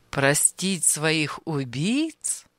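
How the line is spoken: Laughing. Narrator (Russian): Анисим рассмеялся

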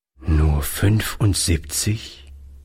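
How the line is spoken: Sad old man. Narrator (German): wiederholte der Alte traurig

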